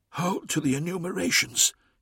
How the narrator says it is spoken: he whispered

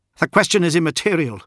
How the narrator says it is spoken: snapped Fulgrim

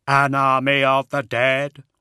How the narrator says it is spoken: Brother Attias said in his hollow, synthetic voice

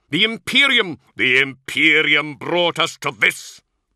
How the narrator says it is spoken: Luther roared

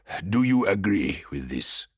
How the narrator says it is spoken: Kidem asked

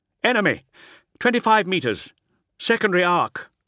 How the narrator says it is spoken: Navarre reported breathlessly

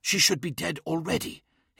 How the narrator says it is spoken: hissed Ankuinen

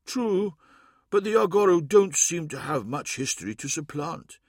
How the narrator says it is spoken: he said sadly

